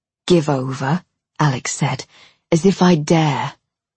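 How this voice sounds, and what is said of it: Leeds accent for a male character. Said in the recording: “His Leeds accent filtered through his words.”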